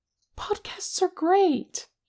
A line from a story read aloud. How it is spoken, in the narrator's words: Che exclaimed, like that had been a totally normal thing for Kim to say